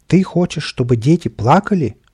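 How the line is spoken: Exclaimed. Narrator (Russian): воскликнул

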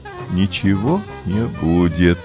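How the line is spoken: Sad mother. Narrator (Russian): печально сказала мама

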